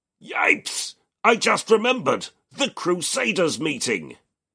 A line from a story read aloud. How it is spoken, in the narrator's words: His exclamation mark-riddled thought yells